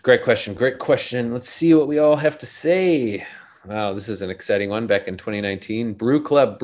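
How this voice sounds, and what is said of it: Usual voice. Nothing is said of it.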